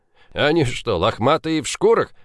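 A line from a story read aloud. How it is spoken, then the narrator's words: Snort. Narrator (Russian): фыркнул Олдридж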